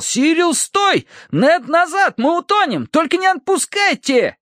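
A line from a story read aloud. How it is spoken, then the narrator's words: Shouting. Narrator (Russian): Терренс кричал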